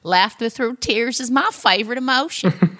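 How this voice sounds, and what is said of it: Put-on accent imitating another's voice. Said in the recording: “Beautiful accent work”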